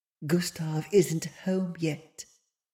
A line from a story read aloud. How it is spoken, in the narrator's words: she burrowed her head into the collar of his fur and whispered